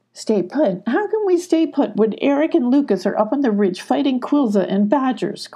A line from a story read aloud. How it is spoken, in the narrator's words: cried Sylvie